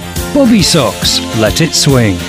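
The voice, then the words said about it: Put-on Norwegian accent. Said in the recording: “let me just put on my best Norwegian accent.”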